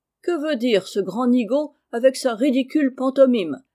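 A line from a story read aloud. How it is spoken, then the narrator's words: Laughing. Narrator (French): dit Meg en riant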